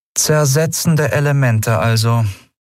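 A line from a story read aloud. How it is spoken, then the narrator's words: Flat toneless voice. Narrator (German): sagte schließlich mit tonloser Stimme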